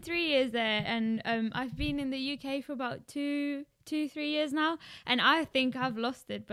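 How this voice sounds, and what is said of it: South African accent. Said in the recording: “clearly she has more of a South African accent”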